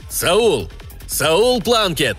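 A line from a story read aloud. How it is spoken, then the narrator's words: Shout. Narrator (Russian): крикнул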